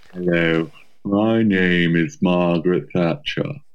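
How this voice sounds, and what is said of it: Poor Margaret Thatcher impression. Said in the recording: “It was a shit impression ... impressions of Margaret Thatcher”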